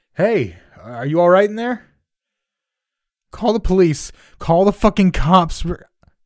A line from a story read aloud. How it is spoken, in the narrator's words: a voice outside called out